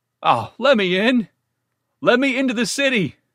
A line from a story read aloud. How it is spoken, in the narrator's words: He beat against the gate and cried